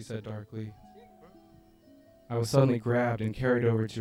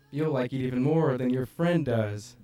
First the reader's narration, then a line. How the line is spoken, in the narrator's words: laughed